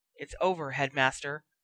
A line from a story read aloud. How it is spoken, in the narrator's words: Snape hissed through clenched teeth